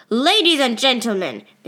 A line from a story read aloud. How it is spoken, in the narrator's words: they yell